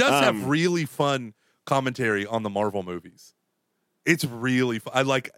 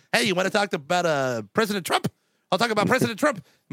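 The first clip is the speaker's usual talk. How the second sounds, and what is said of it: Imitates another person's fast speech. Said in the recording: “My voice is so fast”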